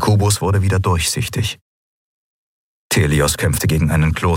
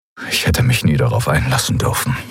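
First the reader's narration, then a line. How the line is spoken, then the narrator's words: Murmuring. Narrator (German): murmelte er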